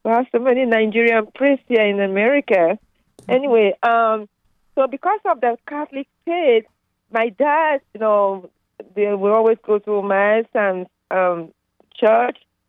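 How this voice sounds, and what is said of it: Nigerian English accent. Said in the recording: “You can tell from my accent, I'm from Nigeria.”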